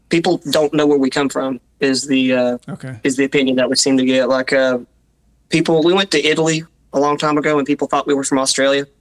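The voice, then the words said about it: Southern Appalachian accent. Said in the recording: “Southern Appalachia would be the accent I'm talking about ... it's a strange accent”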